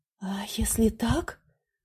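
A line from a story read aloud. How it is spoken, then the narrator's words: Whisper. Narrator (Russian): прошептала она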